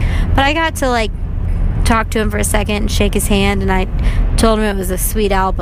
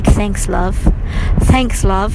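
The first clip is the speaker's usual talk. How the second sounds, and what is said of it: Put-on English accent. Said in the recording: “I think I said it in an English accent”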